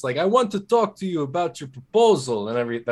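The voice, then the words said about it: Poor put-on Russian accent. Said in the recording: “the Russians ... That's probably a terrible accent.”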